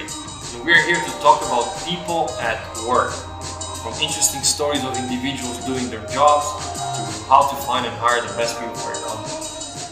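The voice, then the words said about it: Slight Romanian accent. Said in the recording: “All with a bit of a Romanian accent”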